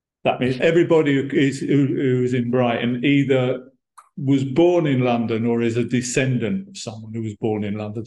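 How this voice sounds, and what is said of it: London-like English accent. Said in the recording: “my accent, it's very Brighton ... the accent in Brighton is pretty much the same as maybe a little bit different, but more or less the same as the London accent.”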